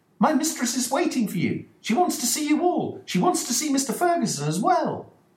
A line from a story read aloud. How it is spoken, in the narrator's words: Dolores exclaimed